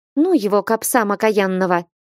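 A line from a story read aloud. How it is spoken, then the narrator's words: Snapping. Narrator (Russian): огрызнулась Марьюшка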